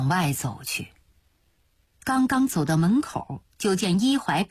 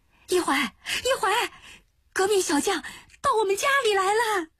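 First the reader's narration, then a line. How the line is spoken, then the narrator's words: Calling from afar. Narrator (Chinese): 陈师母就在巷口那边叫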